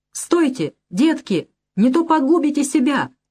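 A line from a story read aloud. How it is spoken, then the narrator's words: Shouted after them. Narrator (Russian): крикнул им вслед Мали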